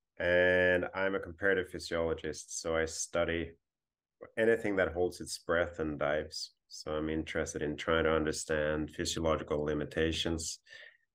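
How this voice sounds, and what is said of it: Swedish accent in English. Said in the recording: “I'm originally Swedish, thereby the weird accent.”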